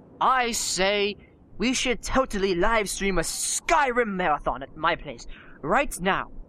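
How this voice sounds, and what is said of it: Put-on English accent. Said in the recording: “I did spontaneously burst into an English accent”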